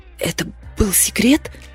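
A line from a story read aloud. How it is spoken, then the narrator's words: Hissing. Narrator (Russian): зашипела я на Криса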